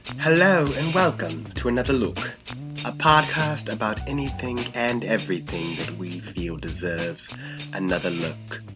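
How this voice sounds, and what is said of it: Put-on accent. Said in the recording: “All right, I'm going to stop doing that accent now.”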